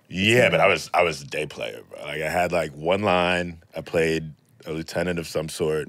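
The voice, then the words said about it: Very deep bass voice with accent. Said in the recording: “I was a bass when I was like 14 ... a 14-year-old boy who sounds like this ... the accent, because it sounds different”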